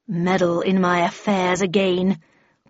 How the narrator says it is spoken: growled the Red Queen

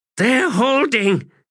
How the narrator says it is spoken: she gasped

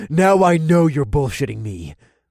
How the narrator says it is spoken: Boyd growled

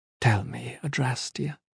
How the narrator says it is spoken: he said quietly

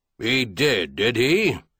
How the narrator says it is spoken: Clinton snorted like an irritated boar

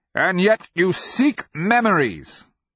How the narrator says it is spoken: the wizard cried, at last delivered to tears

